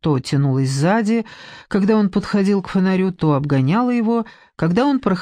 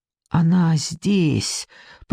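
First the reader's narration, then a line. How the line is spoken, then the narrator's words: Whisper in ear. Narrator (Russian): прошептал он в холодное Машино ухо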